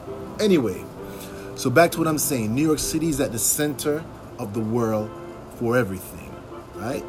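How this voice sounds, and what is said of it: Jamaican accent. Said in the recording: “You're going to detect an accent. ... my family's from the Caribbean. I'm Jamaican.”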